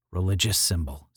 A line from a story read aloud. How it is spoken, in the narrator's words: said Janus